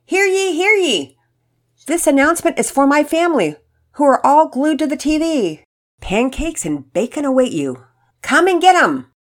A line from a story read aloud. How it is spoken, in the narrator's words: they heard Mama Peters yell from the kitchen